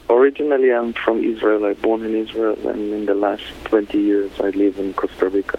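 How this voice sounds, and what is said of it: Beautiful foreign accent. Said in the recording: “where is this beautiful accent from? I adore it.”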